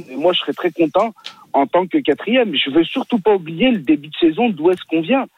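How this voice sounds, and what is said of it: Regional French Saint-Étienne accent. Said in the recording (French): “l'accent lyonnais, on dirait ... Il n'a pas l'accent lyonnais, il a l'accent... stéphanois”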